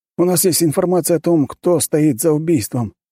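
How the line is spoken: Breathless exhale. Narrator (Russian): наконец выдохнул подчиненный

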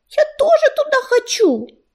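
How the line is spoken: Small kitten's squeak. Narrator (Russian): запищал маленький серый котенок

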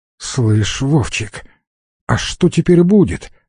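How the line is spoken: Plain question. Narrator (Russian): спросил Алекс

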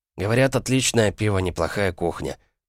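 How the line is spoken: Mutter. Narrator (Russian): пробормотал он

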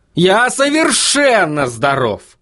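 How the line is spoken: Yelling. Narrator (Russian): завопил Вильям

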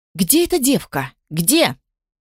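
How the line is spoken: Shouting. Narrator (Russian): кричала Тиса Мальяна

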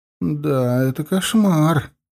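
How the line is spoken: Moaning. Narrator (Russian): простонала она

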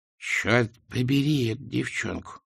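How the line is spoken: Muttered. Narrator (Russian): пробормотала она

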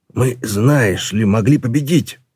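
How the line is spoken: Growled. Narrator (Russian): прорычал Ржав

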